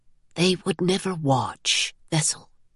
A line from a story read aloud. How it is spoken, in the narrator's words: he whispered